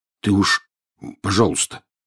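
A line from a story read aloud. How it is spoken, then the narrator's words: Muffled mumble. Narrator (Russian): приглушенно пробормотал Рон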